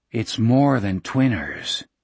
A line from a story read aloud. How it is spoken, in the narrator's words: he said in a low voice